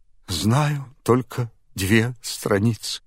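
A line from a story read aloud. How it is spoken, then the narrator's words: Answering through tears. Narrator (Russian): бедный Алеша сквозь слезы отвечал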